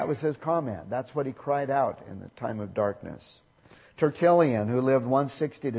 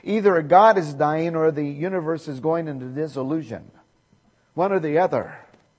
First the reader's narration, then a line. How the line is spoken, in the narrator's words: he stopped in the mid-sentence of his discourse, and he exclaimed loudly